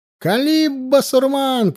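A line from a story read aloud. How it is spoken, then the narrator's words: Encouraging shout. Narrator (Russian): кричал с вала суворов, подбадривая атакующих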